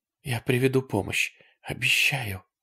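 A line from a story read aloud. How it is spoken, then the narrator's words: Whisper. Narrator (Russian): сказала она шепотом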